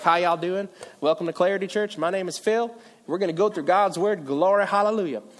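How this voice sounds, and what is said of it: Put-on Virginia Southern accent. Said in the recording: “You don't have an accent ... I'm like more of like a chameleon. Whoever I'm talking with, I sound like ... 10 minutes after maybe talking from my friends from Virginia, I'm like”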